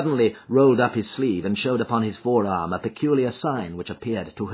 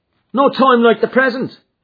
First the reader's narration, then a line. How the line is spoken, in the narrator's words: cried McMurdo